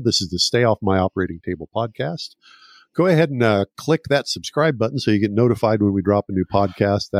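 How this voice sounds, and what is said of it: Smooth radio announcer voice. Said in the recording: “He has a great radio voice”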